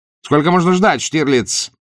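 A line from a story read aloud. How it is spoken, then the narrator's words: Shouted. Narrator (Russian): Мюллер крикнул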